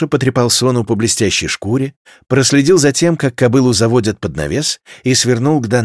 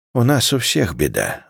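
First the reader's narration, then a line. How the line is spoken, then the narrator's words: Sighing woman. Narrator (Russian): вздохнула женщина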